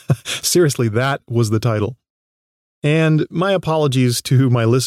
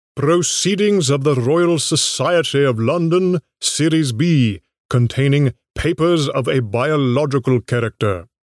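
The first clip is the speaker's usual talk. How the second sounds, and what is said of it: Poor imitation British accent. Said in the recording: “my British accents are way off”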